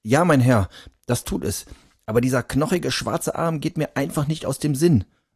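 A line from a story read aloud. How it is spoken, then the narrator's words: Trembling voice. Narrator (German): sagte er noch immer mit zitternder Stimme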